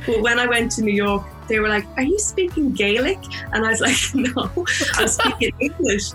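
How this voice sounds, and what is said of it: Irish accent. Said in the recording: “because of my, my accent, I pronounce my words a little bit better these days ... I thought all Irish people”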